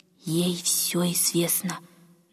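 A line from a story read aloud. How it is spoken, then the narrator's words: Meaningful old woman's whisper. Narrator (Russian): многозначительно прошептала старушка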